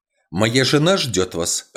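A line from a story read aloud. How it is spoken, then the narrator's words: Sharp. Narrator (Russian): резко сказал он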